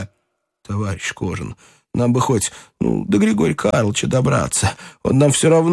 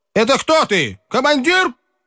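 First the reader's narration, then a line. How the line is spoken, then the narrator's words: Clipped shout. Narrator (Russian): крикнул Кожин рубящим голосом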